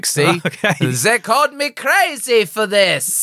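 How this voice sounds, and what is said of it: A terrible put-on accent. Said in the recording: “that is actually it's a terrible accent”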